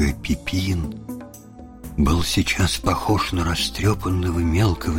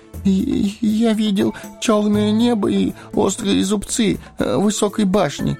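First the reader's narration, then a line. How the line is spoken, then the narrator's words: Timid babbling. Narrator (Russian): пролепетал он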